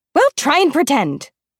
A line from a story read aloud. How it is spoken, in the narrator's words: snaps Effie